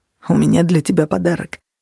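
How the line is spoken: Mumble. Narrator (Russian): пробормотал он

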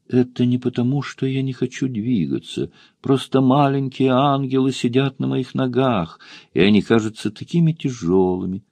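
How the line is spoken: Quiet. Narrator (Russian): тихо проговорила

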